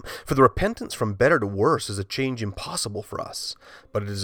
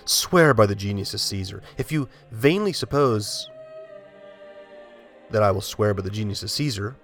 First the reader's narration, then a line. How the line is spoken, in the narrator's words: Polycarp replied